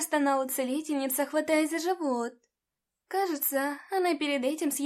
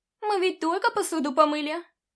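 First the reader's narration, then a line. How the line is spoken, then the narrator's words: Whimpering. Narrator (Russian): захныкала вторая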